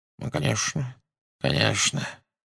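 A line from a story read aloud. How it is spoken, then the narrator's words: Unsurprised mumble. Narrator (Russian): бормотал он, без малейшего удивления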